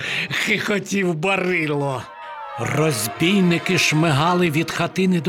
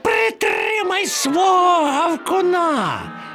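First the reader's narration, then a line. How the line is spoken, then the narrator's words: Shrieking. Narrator (Ukrainian): Верещав Чмур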